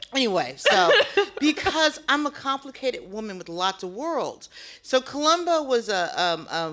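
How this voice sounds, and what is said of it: Usual voice. Nothing is said of it.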